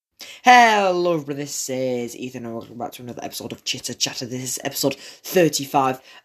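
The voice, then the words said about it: Slightly strained, off-sounding voice. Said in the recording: “my voice sounds a bit off or a bit weird. It's just because I've been shouting and celebrating”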